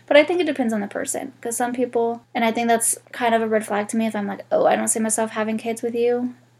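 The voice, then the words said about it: Congested, nasal sick voice. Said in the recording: “I'm also sick today, so if my voice sounds weird, it's because I'm congested. I got a fucked up nose, so anytime I'm congested, I just sound like an absolute mess.”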